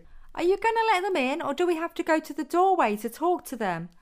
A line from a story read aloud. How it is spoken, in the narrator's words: a voice called out from inside the apartment